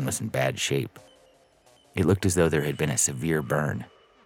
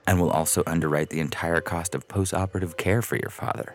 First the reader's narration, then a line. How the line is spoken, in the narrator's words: Northrop added smoothly